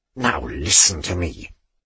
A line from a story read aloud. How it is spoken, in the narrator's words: she snarled at him in Bavarian